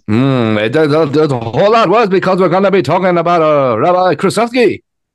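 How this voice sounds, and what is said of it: Mock rabbi accent impression. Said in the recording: “What was that accent ... an impression of a man doing an impression of a rabbi ... First one, you sound like Muhammad Ali.”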